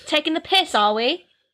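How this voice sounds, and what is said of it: Put-on British accent. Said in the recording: “I love the British accent. I just love it.”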